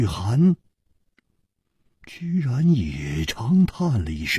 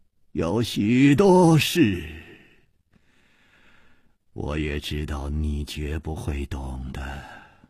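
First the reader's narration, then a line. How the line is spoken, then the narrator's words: Calm, sighing. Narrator (Chinese): 李玉涵也不生气，竟又叹气了一声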